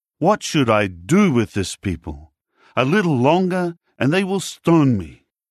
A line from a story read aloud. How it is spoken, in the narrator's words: Moses cried out to Jehovah